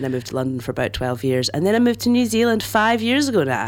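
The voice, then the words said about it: Scottish accent. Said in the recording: “I'm Scottish, which is why Liv wants to do my accent.”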